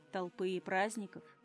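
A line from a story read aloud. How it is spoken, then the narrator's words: Dry summarizing. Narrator (Russian): обобщил сухо Тайфун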